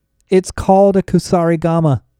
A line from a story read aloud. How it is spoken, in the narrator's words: I shouted